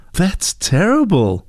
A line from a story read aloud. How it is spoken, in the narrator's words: exclaimed Heidi